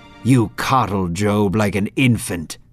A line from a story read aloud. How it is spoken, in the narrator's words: Satan snapped